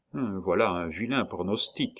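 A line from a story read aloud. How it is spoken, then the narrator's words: Murmuring. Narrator (French): murmura-t-il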